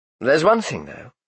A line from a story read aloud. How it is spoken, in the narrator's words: he went on more calmly